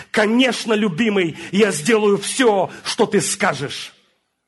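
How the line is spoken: Shouted. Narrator (Russian): Я прокричал

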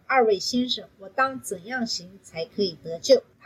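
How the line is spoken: Plain. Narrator (Chinese): 他们说

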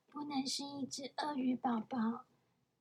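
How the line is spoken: Little owl, tiny whisper. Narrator (Chinese): 小猫头鹰小小声地说

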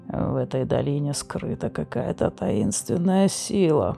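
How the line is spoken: Muttered. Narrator (Russian): пробормотал Флар

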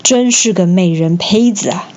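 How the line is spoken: Inner admiring thought. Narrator (Chinese): 刘备心里忍不住赞叹

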